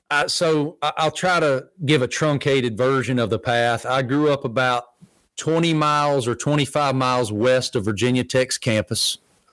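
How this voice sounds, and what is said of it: Southern American accent. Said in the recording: “they think I'm faking the accent. As if a Southern accent”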